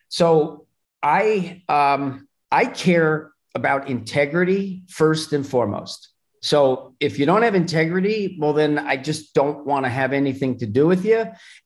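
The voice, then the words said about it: New Jersey accent, slightly mixed. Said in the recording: “I hear the accent now. There it is. ... my accent's a little bit different, but there is definitely Jersey in it.”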